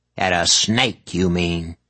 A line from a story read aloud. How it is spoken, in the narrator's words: Calla snarled back